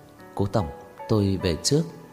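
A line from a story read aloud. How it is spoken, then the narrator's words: Quiet. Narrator (Vietnamese): Cô nhỏ giọng nói với Cố Dư Sinh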